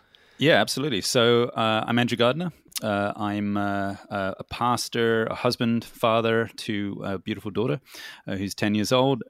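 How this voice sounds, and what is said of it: Hard-to-place accent. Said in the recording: “probably won't pick where you're from either, from your accent, because you've got one of those accents that ... you're just trying to figure out where the heck is that from”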